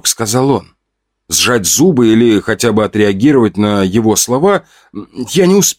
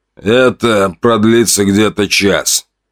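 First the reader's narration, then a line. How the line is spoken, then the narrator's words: Hoarse wheeze. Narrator (Russian): просипел человек со звезд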